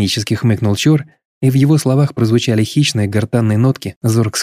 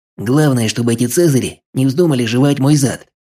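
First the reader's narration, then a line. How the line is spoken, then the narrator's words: Grumble. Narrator (Russian): пробурчал Чор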